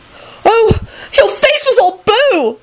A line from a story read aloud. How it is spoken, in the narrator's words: Elizabeth shrieked